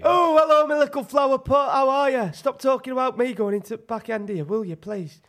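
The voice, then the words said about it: Wakefield bricklayer character accent. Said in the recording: “you're going to attempt to do the accent after each one... Mikey the Bricklayer from Wakefield”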